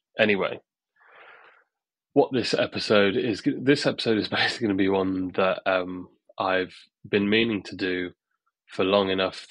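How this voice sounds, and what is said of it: Husky voice from illness. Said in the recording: “I've been ill basically all week. So if you can hear that in my voice ... I might sound a little bit huskier maybe than normal”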